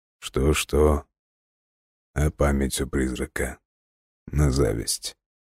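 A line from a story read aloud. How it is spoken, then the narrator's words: Thoughtful. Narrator (Russian): Бран тихо усмехнулся, задумчиво произнес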